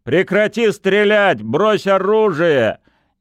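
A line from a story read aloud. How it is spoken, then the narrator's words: Shout in German. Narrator (Russian): Сосновский крикнул по-немецки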